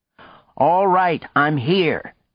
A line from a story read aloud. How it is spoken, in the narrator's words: shouted